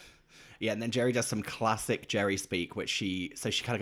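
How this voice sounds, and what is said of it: Usual voice. Nothing is said of it.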